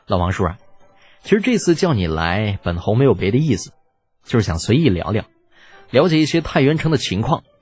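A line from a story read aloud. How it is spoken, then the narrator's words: Slight smile. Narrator (Chinese): 微微一笑，道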